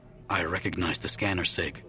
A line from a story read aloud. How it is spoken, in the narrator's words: he said huskily